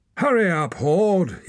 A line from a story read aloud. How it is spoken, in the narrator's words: yelled a woman